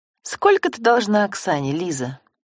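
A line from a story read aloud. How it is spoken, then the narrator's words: Forced calm, even voice. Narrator (Russian): Антонина постаралась говорить ровно и спокойно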